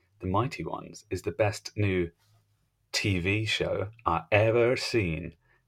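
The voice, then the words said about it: Put-on Southern American accent. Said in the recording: “That Southern American accent there.”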